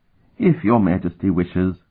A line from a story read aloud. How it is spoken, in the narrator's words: Lenda sighed